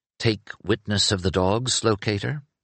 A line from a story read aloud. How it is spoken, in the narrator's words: Learned Penric, in amusement, murmured